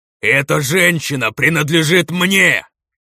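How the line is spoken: Roaring demon. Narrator (Russian): проревел демон, теряя весь свой благородный лоск

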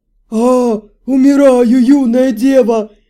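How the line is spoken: Hoarse wheeze. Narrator (Russian): Прохрипел Хилар

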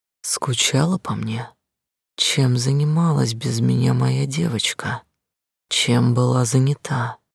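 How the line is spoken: Quiet questions. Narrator (Russian): тихо спрашивал

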